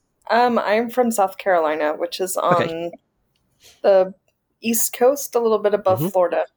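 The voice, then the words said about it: American accent. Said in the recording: “I can tell by your accent that you're not from the Middle East ... I'm American”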